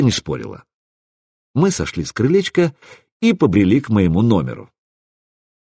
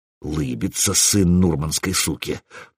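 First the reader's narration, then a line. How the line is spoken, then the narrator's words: Male grumble close by ear. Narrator (Russian): проворчал мужской голос по-русски где-то в районе моего правого уха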